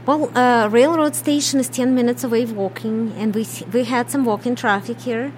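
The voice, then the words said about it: Russian accent. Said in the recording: “My accent from Kyiv, Ukraine. It's a Russian accent.”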